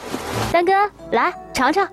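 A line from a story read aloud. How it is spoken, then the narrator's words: Calling to son. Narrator (Chinese): 转朝儿子叫道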